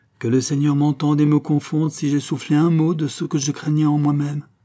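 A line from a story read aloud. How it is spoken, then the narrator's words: Plain. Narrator (French): dit-il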